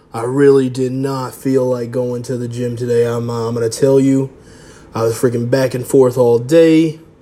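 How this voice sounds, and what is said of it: Voice sounds different, unwell. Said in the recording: “my voice is kind of different. I guess I'm not feeling too hot.”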